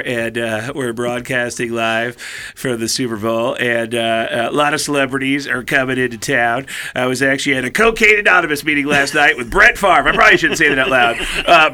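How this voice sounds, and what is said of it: Imitates another person's voice. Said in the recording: “do an impression of is Tom Arnold ... I'll come in as Tom Arnold ... really loose-lipped Tom Arnold”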